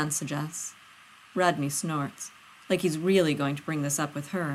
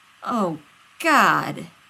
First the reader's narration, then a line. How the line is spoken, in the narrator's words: Rodney groans